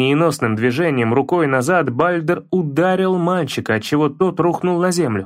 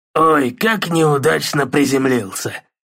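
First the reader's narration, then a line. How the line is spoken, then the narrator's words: Mocking, through gritted teeth. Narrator (Russian): Насмешливо процедил Бальдер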